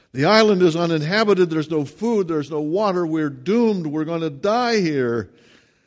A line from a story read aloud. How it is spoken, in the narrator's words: he rushed to the other man and screamed out